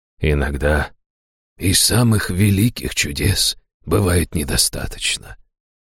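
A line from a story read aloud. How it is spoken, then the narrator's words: Gentle speech. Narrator (Russian): мягко проговорил он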